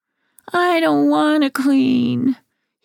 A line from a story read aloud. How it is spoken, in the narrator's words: he wails